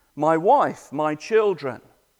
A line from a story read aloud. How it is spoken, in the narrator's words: he cried out